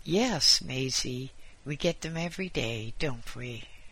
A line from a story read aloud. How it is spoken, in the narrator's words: The one called Boris laughed and replied